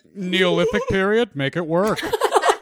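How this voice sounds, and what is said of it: Tim Gunn impression. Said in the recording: “best Tim Gunn impression”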